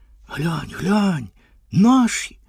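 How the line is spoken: Heated whisper. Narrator (Ukrainian): прошепотів хтось гаряче

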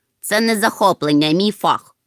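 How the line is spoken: Sleepy grumble. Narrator (Ukrainian): буркнув Гемуль, який сьогодні не виспався

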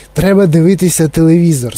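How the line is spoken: Plain. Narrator (Ukrainian): сказав містер Вонка

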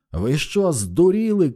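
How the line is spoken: Shouted. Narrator (Ukrainian): крикнув її лице Стентон

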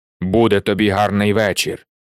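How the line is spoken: Low voice. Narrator (Ukrainian): сказав хтось низьким голосом

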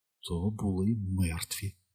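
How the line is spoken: Shocked whisper to himself. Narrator (Ukrainian): прошепотів сам до себе Стен, шокований

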